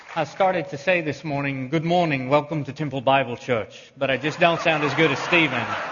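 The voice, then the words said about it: East Texas accent. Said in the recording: “East Texas accent”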